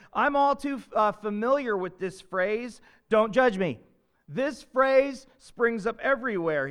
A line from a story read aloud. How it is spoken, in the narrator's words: says